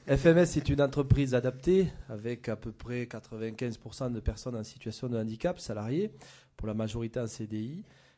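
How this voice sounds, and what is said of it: Southwestern French regional accent. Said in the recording (French): “mon accent va me trahir puisque vous voyez de suite que je suis basé dans les Landes”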